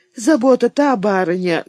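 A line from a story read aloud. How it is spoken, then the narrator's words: Muffled voice. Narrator (Russian): глухо произнесла Фимья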